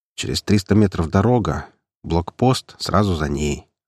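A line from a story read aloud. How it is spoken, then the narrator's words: Calm reply. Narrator (Russian): спокойно ответил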